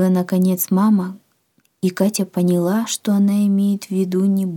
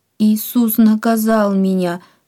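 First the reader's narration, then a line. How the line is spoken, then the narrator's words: Sobbing, overwhelmed. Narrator (Russian): всхлипнула Катя, не в силах сдерживать волнение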